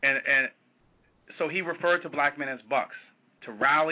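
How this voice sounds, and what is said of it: Usual voice. Nothing is said of it.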